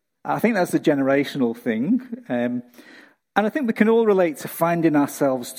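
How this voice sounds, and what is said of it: Usual voice. Nothing is said of it.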